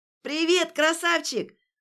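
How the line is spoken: Loud yell right by ear. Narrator (Russian): заорала у самого уха Варя

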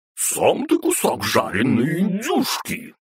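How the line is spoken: Deep roar. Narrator (Russian): басом проревела Бранхель

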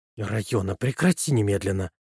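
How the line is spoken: Hissing. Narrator (Russian): прошипела Уолш

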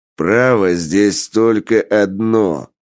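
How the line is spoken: Impatient growl. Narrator (Russian): рыкнул главарь, теряя терпение

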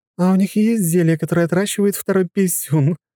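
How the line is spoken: Young woman's nervous laugh. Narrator (Russian): нервно рассмеялась девушка

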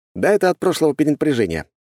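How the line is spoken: Wry snort. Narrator (Russian): хмыкнул я

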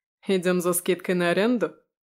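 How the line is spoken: Wry snort. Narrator (Russian): хмыкнул Витя

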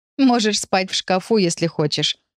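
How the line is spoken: Giggling. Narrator (Russian): хихикнула Лара

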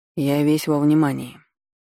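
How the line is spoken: Gloomy, barely hidden irritation. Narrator (Russian): мрачно, с ноткой раздражения, которое не удалось скрыть, проговорил Реймонд

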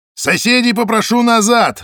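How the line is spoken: Barking. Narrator (Russian): рявкнул Зайцев

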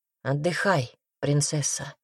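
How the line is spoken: Hoarse voice. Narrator (Russian): хрипло проговорил Райнер

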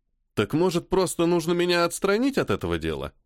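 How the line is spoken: Sarcastic question. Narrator (Russian): все так же язвительно спросил майор

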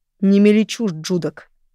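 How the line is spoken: Growled. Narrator (Russian): прорычал Роан

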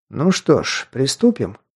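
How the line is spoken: Calm. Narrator (Russian): спокойно сказал Кредер

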